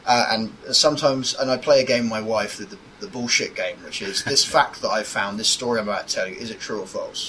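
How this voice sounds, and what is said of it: Posh middle-class English accent. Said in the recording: “I have the posh middle class accent”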